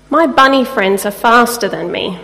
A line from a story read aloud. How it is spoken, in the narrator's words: says the mouse